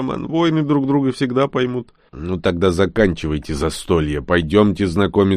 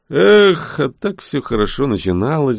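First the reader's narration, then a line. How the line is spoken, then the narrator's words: Sighing. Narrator (Russian): вздохнул Рон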